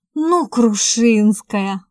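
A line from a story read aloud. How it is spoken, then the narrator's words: Breathed out. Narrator (Russian): выдохнул Игорь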